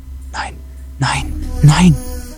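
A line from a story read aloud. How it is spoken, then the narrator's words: Whisper with failing voice. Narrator (German): flüsterte er und merkte, wie ihm die Stimme versagte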